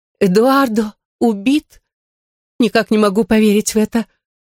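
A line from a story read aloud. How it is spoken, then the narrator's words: Sobbing. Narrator (Russian): всхлипнула Камастилла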